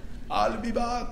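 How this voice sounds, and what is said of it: Arnold Schwarzenegger accent impression. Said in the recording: “Arnold Schwarzenegger has an accent.”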